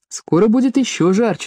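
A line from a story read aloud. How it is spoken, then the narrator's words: Cheerful. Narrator (Russian): сказал Паки бодро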